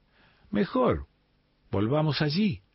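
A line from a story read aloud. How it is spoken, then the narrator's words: Exclamation. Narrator (Spanish): exclama Rina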